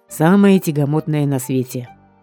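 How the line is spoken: Grunt. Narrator (Russian): хмыкнул Бёрр

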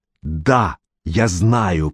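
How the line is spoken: Hissing mother. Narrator (Russian): прошипела мать

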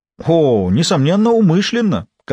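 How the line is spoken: Flirtatious exclamation. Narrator (Russian): кокетливо воскликнул патологоанатом

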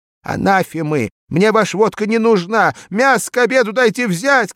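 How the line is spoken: Shouting like a bugle. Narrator (Russian): кричала, как кавалерийская труба

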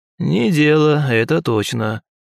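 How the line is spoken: Sleepy sigh. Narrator (Russian): сонно поддохнул Ушаков

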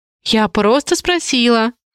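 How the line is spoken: Bursting into laughter. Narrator (Russian): расхохоталась Ники

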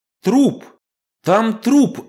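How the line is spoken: Hysterical scream. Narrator (Russian): закричала девушка в натуральной истерике

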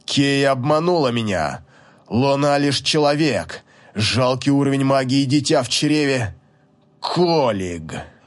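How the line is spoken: Restrained growl. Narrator (Russian): Он сдерживая трансформацию, зарычал

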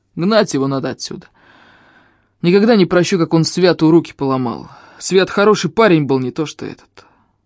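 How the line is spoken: Grumbling. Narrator (Russian): пробурчал он

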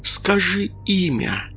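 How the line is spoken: Whisper. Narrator (Russian): прошептала она

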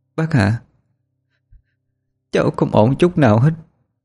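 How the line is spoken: Choked, broken voice. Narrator (Vietnamese): Lễ đáp, giọng cô nghẹn ngào đứt quãng

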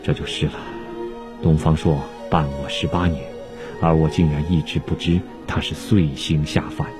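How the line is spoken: Sighing. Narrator (Chinese): 汉武帝听了后叹息道

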